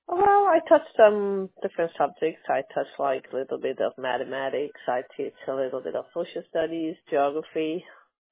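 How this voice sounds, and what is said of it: Distinct non-native English accent. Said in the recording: “I like your accent. It does sound different. You have a different accent when you speak English.”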